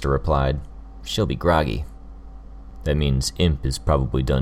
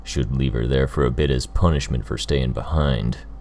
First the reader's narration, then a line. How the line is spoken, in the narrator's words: Gru grumbled